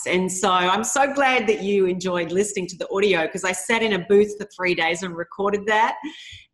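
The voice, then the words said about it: Australian accent. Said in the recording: “I love your Australian accent. I just think it's absolutely lovely.”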